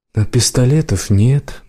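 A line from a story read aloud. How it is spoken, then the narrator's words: Gloomy remark. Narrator (Russian): мрачно отметила она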